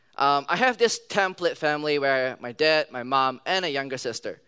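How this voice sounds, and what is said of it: Singaporean-influenced English accent. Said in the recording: “I grew up in Singapore, so that kind of explains my accent is kind of different from the rest of them.”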